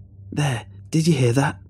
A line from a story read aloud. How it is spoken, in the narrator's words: he cried